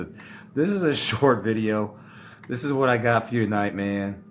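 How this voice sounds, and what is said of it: Usual voice. Nothing is said of it.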